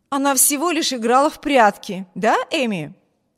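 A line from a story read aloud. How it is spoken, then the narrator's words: Cheerful. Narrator (Russian): Брюс говорил все это весело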